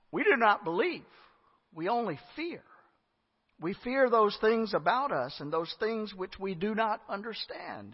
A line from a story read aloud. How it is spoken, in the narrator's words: he said